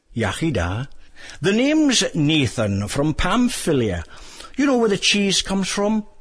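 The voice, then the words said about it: South Welsh accent. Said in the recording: “sounds more like he comes from South Wales”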